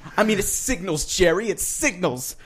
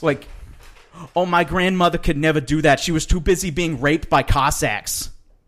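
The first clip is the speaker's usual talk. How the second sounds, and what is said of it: Imitates another person's voice. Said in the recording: “Good impression.”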